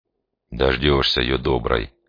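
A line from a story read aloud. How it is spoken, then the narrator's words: Grumbling. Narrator (Russian): буркнул Демьян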